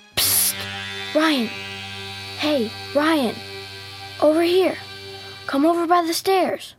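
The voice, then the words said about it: Loud whisper. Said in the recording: “he heard a loud whisper. ... Why are you whispering?”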